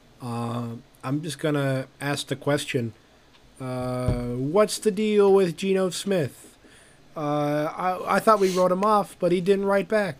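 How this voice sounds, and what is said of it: Jerry Seinfeld impression. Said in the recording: “my Jerry Seinfeld impression”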